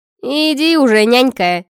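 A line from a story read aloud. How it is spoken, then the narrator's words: Scornful snort. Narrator (Russian): фыркнула Арчанка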